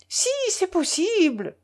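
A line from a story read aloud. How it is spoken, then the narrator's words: Shrill yelp. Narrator (French): glapit Tatiana Pavlovna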